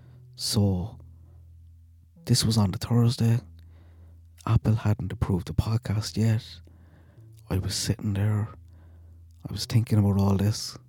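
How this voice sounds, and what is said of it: Thick, mumbly, relaxed accent. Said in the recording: “my accent is a bit thicker and probably a bit more mumbly ... that's too thick ... try not to talk too loud”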